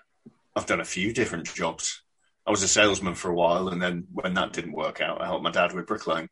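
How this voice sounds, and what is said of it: Midlands English accent. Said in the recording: “you've got a lovely accent ... Midlands, not far from Birmingham.”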